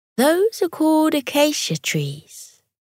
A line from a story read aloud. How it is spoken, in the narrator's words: Mira said